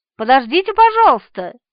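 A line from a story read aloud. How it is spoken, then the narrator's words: Girl shouting. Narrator (Russian): крикнула девушка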